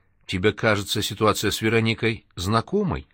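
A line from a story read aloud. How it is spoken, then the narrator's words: Cautious question. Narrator (Russian): осторожно спросил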